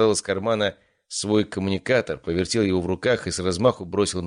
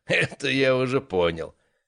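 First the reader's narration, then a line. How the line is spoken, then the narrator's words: Laughing. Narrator (Russian): рассмеялся он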